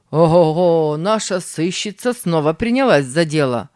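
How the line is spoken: Mocking remark. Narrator (Russian): заметил насмешливо

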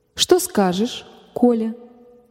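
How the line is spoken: Gentle mother. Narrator (Russian): мягко спросила мать

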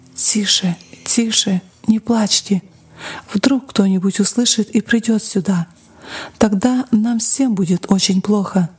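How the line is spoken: Frightened mother's whisper. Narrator (Russian): Мать испуганно шептала детям

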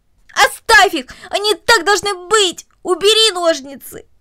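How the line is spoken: Frantic shouting. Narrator (Russian): Корнелли, отбиваясь от него обеими руками, буквально закричала

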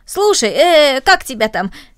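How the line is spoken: Cheerful suggestion. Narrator (Russian): Рома весело предложил

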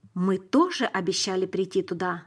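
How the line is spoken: Plain. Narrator (Russian): сказал я

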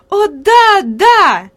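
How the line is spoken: Lively exclamation. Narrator (Russian): живо воскликнула Хади

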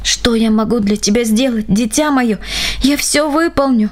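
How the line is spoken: Old man's anguished sob. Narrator (Russian): мучительно всхлипнул растроганный старик

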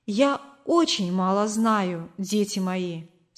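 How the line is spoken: Plain. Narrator (Russian): сказала она нам

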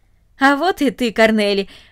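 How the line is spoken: Joyful. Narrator (Russian): радостно сказал он

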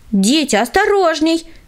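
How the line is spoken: Shout. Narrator (Russian): крикнула им Таисия Михайловна

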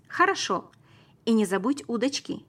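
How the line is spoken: Shouting while running. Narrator (Russian): крикнул я на бегу

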